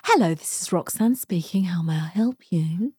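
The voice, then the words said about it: Polished telephone voice. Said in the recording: “I've got a very good telephone voice.”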